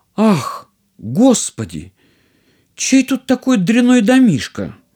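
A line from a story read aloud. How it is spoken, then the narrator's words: Princess exclaiming. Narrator (Russian): И принцесса воскликнула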